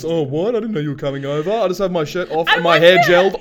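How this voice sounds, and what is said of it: Imitates a TV character's voice. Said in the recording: “That's what Angel sounds like. ... I'm doing a great imitation.”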